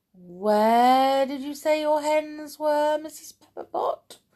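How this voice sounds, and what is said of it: Silky, smooth character voice. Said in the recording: “in his silkiest voice”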